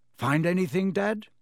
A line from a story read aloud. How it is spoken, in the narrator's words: said Fred eagerly